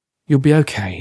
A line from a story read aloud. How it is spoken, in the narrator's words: said with a sigh